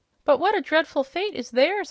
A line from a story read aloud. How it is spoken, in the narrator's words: exclaimed Ozma earnestly